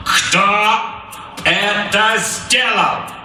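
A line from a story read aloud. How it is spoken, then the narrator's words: Loud, clipped. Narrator (Russian): Громко чеканил Капрал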